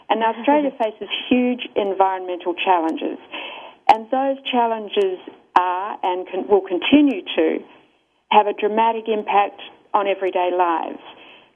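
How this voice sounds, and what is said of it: Australian accent. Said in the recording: “you may be able to tell from my accent is Australia”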